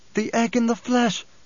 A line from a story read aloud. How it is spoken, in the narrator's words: she gasped